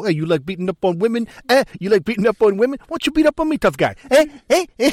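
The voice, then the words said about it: Imitates another person's voice, thick accent. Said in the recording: “does the classical Seagal ... laying on the accent pretty thick”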